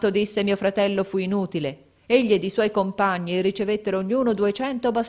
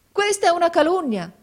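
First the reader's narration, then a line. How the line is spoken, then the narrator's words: Exclaimed. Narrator (Italian): esclamò mio fratello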